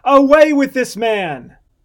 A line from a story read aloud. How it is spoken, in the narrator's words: they again cried out all at once, saying